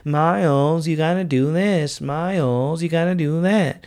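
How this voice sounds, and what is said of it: Weird put-on nagging voice. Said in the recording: “I'm doing a weird voice that I picked up on Seinfeld.”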